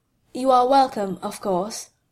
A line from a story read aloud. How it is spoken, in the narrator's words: Monsieur Beliveau said calmly